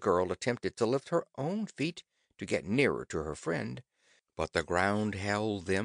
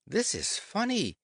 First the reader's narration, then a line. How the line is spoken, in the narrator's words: she exclaimed